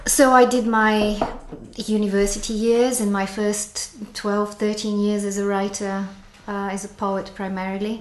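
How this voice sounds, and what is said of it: Accent with a slight New Zealand twang. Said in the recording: “this strange twang in my accent”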